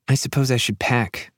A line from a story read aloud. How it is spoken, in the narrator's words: mumbles